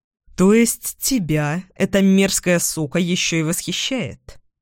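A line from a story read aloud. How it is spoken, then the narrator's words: Grim. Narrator (Russian): Мрачно уточняю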